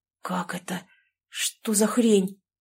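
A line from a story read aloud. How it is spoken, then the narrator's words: Whisper. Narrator (Russian): прошептал Коля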